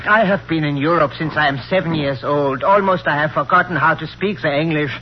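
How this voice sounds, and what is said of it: Foreign accent, non-native English. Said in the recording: “With that accent? Don't make me laugh.”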